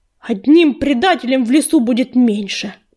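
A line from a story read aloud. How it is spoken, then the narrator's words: Growl. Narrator (Russian): прорычал он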